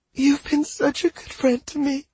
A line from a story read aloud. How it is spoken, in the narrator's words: Celia said, her voice high and shaky